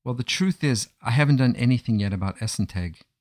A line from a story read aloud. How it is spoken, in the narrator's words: replied Yisrael